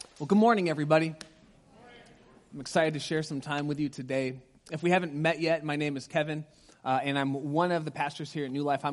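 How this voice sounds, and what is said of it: Sick voice wavering in pitch. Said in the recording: “I'm getting over a cold, so my voice is kind of going up and down”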